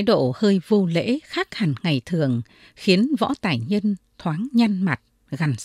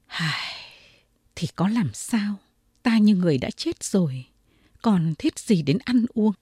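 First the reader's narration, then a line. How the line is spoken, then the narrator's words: Sighing lament. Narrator (Vietnamese): Võ Tài Nhân thở dài, nói như một lời than thân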